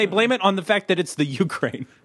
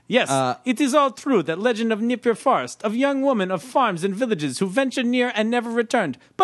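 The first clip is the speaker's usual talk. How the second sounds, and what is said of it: Put-on Russian accent. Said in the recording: “This is written in a Russian accent. ... I don't know if I should read it in a Russian accent.”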